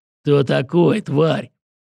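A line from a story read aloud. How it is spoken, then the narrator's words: Growl. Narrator (Russian): Захар прорычал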